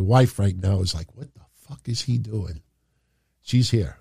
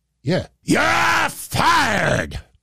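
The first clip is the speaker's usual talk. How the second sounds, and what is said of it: Vince McMahon impression. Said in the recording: “we do a Vince impression?”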